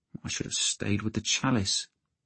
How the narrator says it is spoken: he said miserably

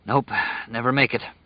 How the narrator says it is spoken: panted

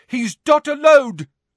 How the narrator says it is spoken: shouted a voice from above them

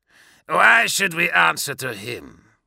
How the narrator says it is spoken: Grelgor snarled

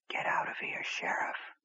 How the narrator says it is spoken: whispered

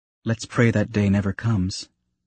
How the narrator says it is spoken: Padme quietly answered

